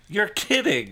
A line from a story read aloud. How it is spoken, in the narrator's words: Elizabeth exclaimed